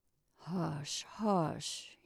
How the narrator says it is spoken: muttered

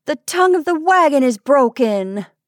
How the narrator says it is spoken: cried Kate in dismay

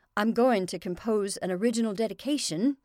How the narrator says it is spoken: Jane said stiffly

